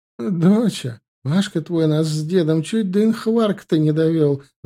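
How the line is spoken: Sudden declaration through laughter. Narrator (Russian): заявила вдруг Юлькина мамаша сквозь смех

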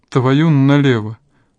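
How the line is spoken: Shocked, through chattering teeth. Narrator (Russian): сквозь клацанье зубов выдавила потрясенная Алина

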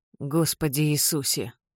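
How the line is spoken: Muttered. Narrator (Russian): бормочет тот

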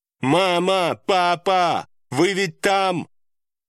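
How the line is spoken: Loud shout. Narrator (Russian): Громко прокричала Чивон

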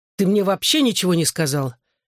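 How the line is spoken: Angry reminder. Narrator (Russian): сердито напомнил я

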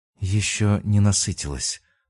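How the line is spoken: Whispering. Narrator (Russian): прошептала

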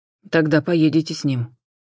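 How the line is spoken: Dry voice from above. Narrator (Russian): сухо разрешили над головой

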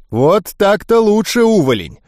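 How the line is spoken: Joyful shout. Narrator (Russian): радостно крикнул Такэдзо

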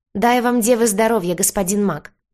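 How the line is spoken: Shouted through gap-toothed smile. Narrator (Russian): Улыбаясь щербатым ртом, в котором отсутствовало несколько зубов, он прокричал

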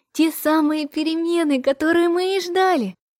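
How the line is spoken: Joyful chirping. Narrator (Russian): Радостно прощебетала Наташа

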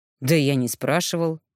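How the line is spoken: Old man snorting. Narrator (Russian): хмыкнул старик

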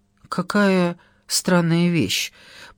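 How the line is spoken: Muttering. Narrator (Russian): пробормотала Моника

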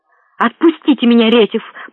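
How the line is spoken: Hissing pale creature. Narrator (Russian): прошипело бледнолицее существо

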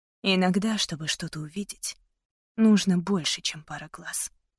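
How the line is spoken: Whispered. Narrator (Russian): прошептала я

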